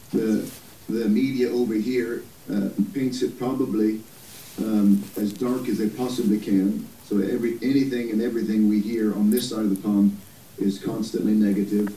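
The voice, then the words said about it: American accent. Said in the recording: “I've got an American accent”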